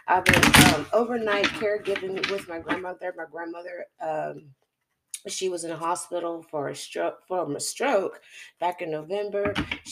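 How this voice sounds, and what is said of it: Rough, crackly, hoarse voice. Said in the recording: “my voice is so ashy and crispy”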